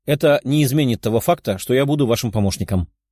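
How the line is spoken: Calm young woman. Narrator (Russian): спокойно ответила девушка

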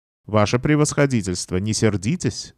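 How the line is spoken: Calm reply. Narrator (Russian): спокойно отозвался

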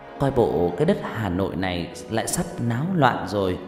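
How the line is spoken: Smiling question. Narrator (Vietnamese): Bà Lương mỉm cười rồi hỏi

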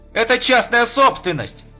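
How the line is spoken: Shout. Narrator (Russian): крикнул он

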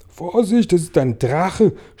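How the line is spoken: Group shouting together. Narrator (German): schrien die Polizisten und Feuerwehrmänner gleichzeitig

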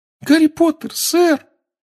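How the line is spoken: Trembling squeak. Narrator (Russian): пропищал эльф, дрожа с головы до пят

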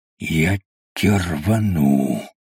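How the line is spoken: Furious hiss. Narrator (Russian): яростно прошипел разведчик

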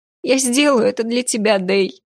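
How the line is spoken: Sobbing. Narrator (Russian): всхлипнула она

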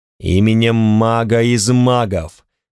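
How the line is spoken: Terrifying voice. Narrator (Russian): сказал я таким страшным голосом, что моя собственная кровь едва не застыла в жилах

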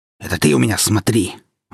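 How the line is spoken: Villain snapping. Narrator (Russian): огрызнулся злой волшебник

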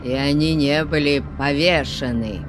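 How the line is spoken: Old man's ominous growl. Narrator (Russian): Зловеще прорычал старик

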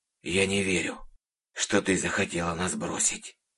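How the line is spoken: Quiet old man. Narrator (Russian): тихо произнес дед Евдоким

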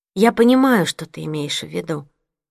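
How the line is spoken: Plain. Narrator (Russian): сказала я

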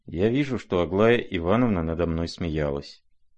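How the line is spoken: Prince's sad reply. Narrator (Russian): грустно ответил князь

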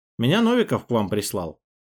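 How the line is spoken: Plain. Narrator (Russian): сказал я

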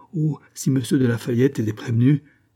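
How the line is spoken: Exclaimed. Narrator (French): s'écria Bailly

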